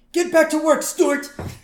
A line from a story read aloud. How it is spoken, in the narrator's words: Burns yells at him